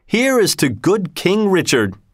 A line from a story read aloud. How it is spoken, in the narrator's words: cried